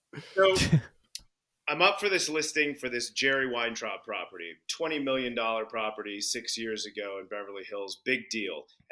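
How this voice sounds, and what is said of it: American accent. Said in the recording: “Are you just doing an American accent this entire time and you're actually British?”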